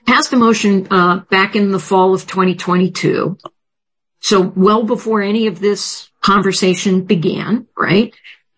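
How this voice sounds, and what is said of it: Strained voice, losing voice. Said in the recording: “Sorry, I'm losing my voice.”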